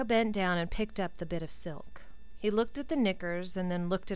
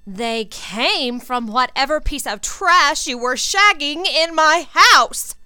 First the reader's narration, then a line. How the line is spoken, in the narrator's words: Jenny yelled